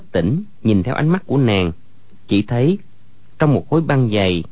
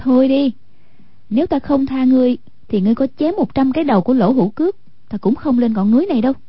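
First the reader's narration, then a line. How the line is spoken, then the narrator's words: Graceful, smiling. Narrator (Vietnamese): Hoàng Dung duyên dáng mỉm cười nói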